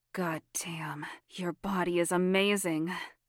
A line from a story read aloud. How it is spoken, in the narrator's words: Sabrina laughed quietly